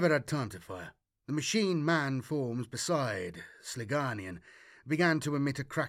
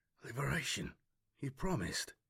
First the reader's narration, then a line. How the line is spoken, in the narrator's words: Delirious with shock, whisper